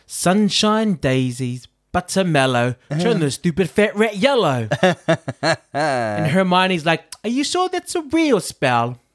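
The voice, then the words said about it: Put-on English accent. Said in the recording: “That was my English accent”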